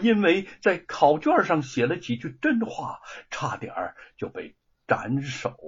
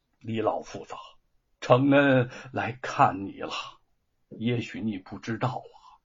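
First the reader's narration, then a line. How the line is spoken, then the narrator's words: Agitated murmur. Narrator (Chinese): 他神情激动的喃喃说道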